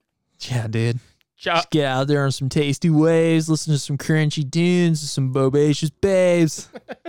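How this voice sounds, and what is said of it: Surfer dude impression. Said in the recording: “your surfer impression”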